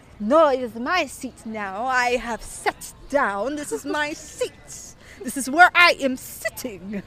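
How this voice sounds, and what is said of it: Terrible put-on Italian accent. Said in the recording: “This is a terrible Italian accent. I don't even know what accent this is”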